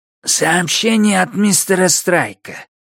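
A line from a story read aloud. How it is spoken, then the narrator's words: Hoarse voice in ear. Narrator (Russian): прохрипел ей в ухо голос Пат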